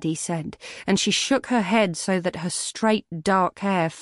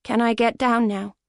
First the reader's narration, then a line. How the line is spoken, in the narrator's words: She asked flatly